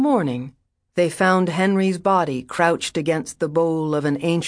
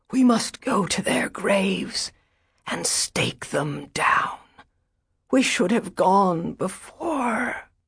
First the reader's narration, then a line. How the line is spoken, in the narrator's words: said the old lady in a harsh whisper